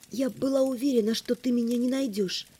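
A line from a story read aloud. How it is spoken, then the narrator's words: Quiet. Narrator (Russian): тихо сказала я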